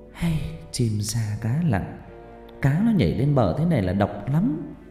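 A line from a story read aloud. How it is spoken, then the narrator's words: Sighing. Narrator (Vietnamese): bà Vi thở dài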